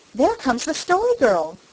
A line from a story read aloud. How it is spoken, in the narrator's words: cried Felicity eagerly